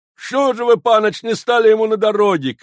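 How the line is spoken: Shout. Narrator (Russian): крикнул

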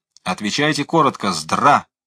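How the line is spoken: Shouted. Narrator (Russian): Мы крикнули

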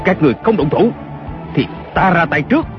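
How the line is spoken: Shouting. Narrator (Vietnamese): Kiều Phong lại quát lên

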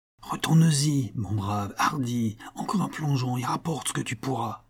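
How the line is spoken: Excited whisper. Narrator (French): chuchota Toineau, l'œil flambant

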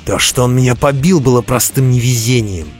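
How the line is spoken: Snapping retort. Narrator (Russian): огрызнулся Роди

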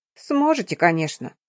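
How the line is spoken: Grumbling from the doorway. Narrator (Russian): раздается ворчание от двери

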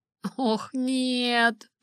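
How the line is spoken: Moaning. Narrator (Russian): простонала я

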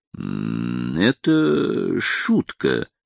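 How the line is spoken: Embarrassed mumble. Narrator (Russian): промямлил Гаррет, явно почувствовав, что может сам оказаться в дураках

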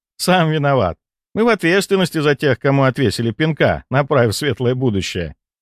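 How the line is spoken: Laughing. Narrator (Russian): рассмеялся Валентина

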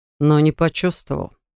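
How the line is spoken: Calm but unsettling. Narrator (Russian): Саган говорил спокойным тоном, но даже мне стало не по себе

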